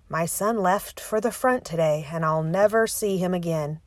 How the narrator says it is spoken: he added, in the same monotone

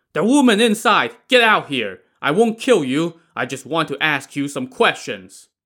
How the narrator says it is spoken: Wu Song now shouted toward the temple

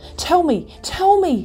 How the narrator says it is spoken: he cried

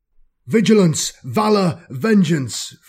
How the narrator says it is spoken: Falcard roars

